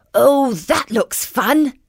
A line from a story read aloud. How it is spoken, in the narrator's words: exclaimed Jeremiah